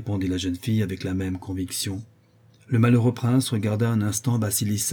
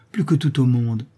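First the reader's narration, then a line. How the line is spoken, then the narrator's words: Ardent exclamation. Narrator (French): s'écria-t-elle avec ardeur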